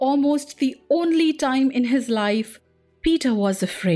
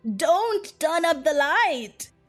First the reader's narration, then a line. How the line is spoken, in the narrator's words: he cried